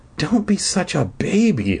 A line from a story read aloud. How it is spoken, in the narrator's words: I muttered